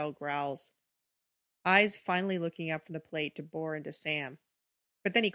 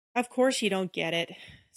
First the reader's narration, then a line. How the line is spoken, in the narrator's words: Sam sighs